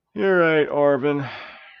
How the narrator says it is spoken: replied Hugh with a yawn

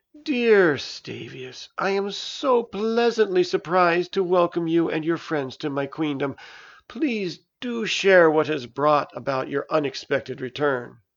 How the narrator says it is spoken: The queen cooed

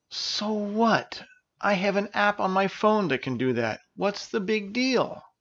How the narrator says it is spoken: Versera groaned

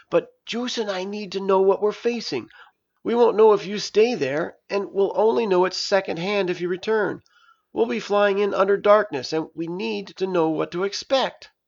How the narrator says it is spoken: pleaded

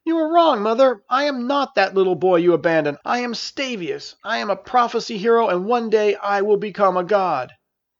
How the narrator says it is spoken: He yelled

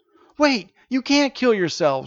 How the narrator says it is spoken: shouted the boys, despite the need to be quiet

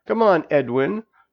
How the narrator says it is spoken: Princess laughed

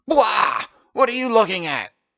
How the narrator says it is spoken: he shouted

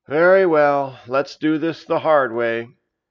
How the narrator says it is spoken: Juice sighed and said

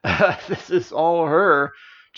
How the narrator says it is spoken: chuckled Orvin

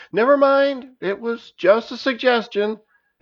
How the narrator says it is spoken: echo out of the cave entrance and shouted

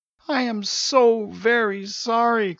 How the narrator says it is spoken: cried Janus

